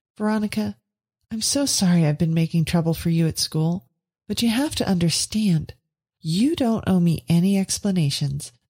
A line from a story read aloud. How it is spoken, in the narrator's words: said Veronica warmly